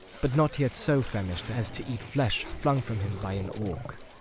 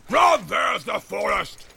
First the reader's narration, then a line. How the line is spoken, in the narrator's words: He shouted